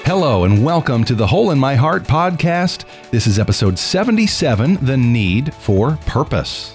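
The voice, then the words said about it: Polished professional radio voice. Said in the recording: “the most professional radio voice among us”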